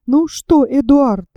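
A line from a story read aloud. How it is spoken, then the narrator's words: Exclaimed. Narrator (Russian): воскликнула леди Эллен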